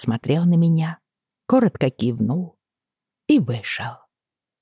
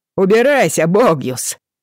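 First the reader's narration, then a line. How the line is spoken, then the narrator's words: Man shouting. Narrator (Russian): прокричал один мужчина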